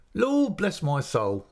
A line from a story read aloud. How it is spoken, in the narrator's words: exclaimed